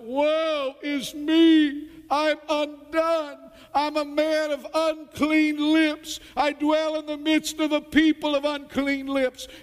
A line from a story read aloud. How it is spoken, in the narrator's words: Isaiah the prophet seeing God's holiness and his own sin, he cries out